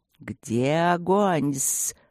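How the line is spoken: Hissing. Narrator (Russian): ночное шипение хвостатой гости

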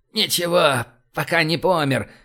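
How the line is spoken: Hoarse reply. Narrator (Russian): прохрипел он в ответ

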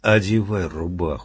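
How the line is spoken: Plain. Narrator (Russian): сказал стрелок

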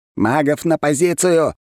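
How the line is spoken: Shouting into microphone. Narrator (Russian): закричал в микрофон Леонтьев

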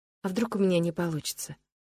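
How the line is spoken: Frightened whisper. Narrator (Russian): прошептала я, внезапно испугавшись предстоящего дня

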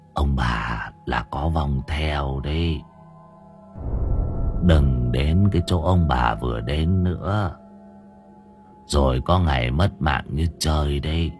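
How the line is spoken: Weak whispery voice. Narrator (Vietnamese): Người kia lên tiếng bằng giọng thều thào

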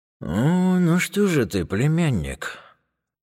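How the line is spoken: Dismayed sigh. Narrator (Russian): Огорченно выдохнул дядя

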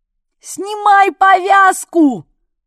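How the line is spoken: Yelled. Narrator (Russian): заорала я

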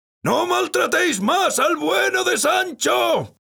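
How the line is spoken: Shouting. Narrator (Spanish): gritaba

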